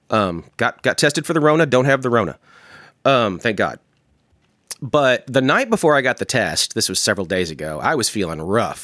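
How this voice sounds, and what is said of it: Congested voice from a head cold. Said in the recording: “you might be able to hear in my voice, I'm getting over a head cold”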